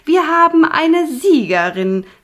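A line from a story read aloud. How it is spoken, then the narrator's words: Witch calling out. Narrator (German): rief Punica Granata, die Oberhexe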